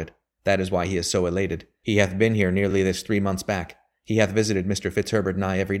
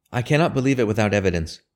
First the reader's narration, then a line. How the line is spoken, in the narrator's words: said